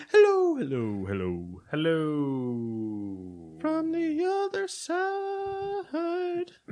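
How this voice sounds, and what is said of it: Imitates another person's singing voice. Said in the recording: “Doing my Adele impression.”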